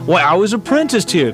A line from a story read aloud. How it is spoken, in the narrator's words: cried Scrooge, and the joy of reunion came over him